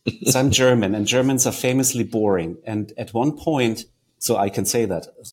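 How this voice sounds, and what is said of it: German-accented English. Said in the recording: “you can tell by my accent that I'm German”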